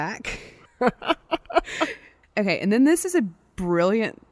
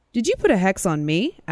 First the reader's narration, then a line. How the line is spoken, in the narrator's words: asked Prosecutor Steele